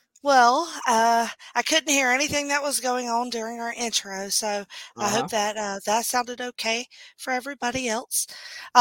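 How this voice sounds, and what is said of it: Strained, worn-out voice. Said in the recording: “My voice is suffering tonight, as you can tell... blow her damn voice out”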